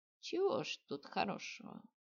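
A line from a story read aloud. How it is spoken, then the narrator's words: Sighing. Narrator (Russian): вздохнула ведущая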